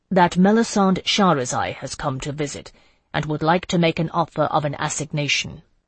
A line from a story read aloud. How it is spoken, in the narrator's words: he said, working hard at keeping his voice solemn